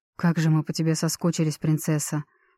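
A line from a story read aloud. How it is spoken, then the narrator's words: Soft breathed words. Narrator (Russian): тихо выдохнул Микаэль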